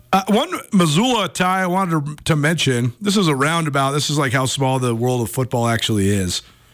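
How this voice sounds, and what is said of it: Sick, congested voice from a cold. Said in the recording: “Sorry I sound so terrible. We got a little cold”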